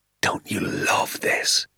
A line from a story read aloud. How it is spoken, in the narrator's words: he whispered to me